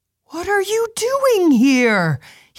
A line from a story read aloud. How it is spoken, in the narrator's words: He shouted aghast